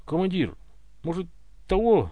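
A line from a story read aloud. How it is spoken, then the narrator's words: Timid question. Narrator (Russian): робко поинтересовался Семенов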